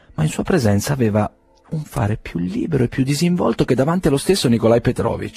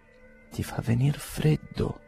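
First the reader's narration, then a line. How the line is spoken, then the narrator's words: Complaining. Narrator (Italian): si lagnava Fenechka con Dunyasha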